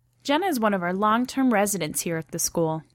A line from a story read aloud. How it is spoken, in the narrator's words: Anna said, her voice warm with approval